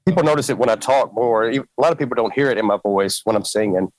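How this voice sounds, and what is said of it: Strong Southern American accent. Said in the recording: “I have a very strong southern accent.”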